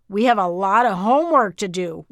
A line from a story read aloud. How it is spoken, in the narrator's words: Whitney exclaimed